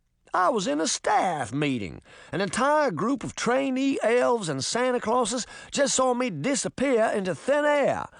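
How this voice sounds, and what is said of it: Thick southern accent. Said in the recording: “the man cried in a thick southern accent.”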